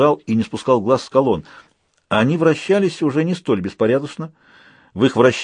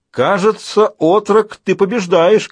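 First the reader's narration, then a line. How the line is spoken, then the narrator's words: Shout. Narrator (Russian): крикнул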